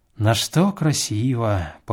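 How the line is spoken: Repeated, sighing, drawn-out grunt. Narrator (Russian): повторил он и вздохнул, а потом протяжно крякнул

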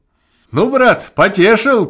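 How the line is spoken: Lout shouting. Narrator (Russian): кричал обалдуй

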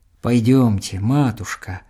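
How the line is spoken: Tender, compassionate. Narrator (Russian): сказал он нежно, голосом полным сострадания

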